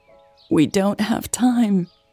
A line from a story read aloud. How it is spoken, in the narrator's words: Eleanor croaked